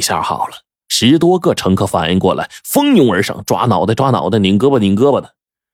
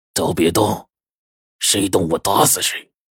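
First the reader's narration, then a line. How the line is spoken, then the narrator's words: Sinister male voice. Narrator (Chinese): 一个男人的声音阴森森的就响起来了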